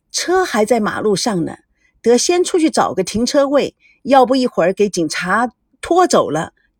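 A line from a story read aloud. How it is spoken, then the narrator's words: Quick, slight smile. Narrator (Chinese): 赵维康微微一笑，加快语速说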